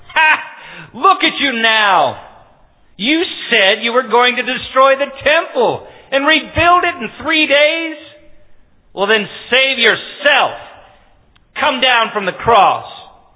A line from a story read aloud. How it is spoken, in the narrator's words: The leading priests, the teachers of religious law, they also mocked Jesus